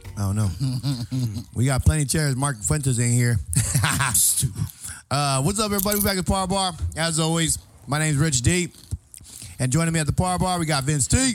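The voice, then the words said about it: Hoarse, worn-out voice. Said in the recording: “my voice is gone ... Intoxicated voice right there ... that's from yelling”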